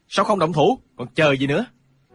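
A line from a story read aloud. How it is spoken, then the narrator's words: Shout. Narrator (Vietnamese): vô tướng thiền sư quát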